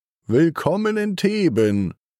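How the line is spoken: Calling out. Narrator (German): ruft

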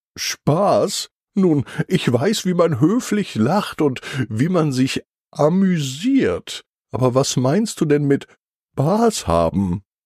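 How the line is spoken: Laughing. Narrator (German): Leonie lacht

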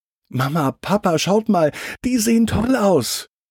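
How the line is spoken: Very excited call. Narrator (German): Lotti ruft ganz aufgeregt

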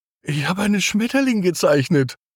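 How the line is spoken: Surprised call. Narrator (German): ruft Magda ziemlich erstaunt

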